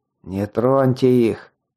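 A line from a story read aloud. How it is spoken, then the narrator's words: Hoarse rasp again. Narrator (Russian): снова прохрипел я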